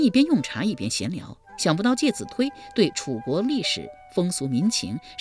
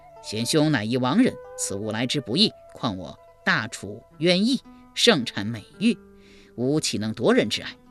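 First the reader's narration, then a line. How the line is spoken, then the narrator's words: Plain. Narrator (Chinese): 一边说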